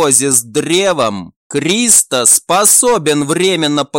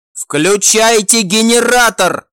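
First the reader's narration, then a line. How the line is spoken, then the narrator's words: Shouted. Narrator (Russian): прокричал глава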